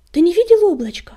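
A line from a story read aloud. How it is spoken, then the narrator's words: Shouted. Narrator (Russian): крикнула Чернобурка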